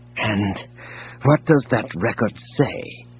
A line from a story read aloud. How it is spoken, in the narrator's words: He asked softly